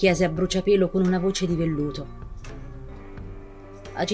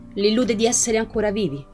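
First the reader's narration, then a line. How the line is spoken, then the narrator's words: Plain. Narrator (Italian): rispose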